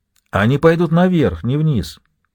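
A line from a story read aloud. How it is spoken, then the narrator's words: Plain. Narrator (Russian): говорит девушка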